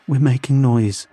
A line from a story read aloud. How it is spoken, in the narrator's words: I said, my voice trembling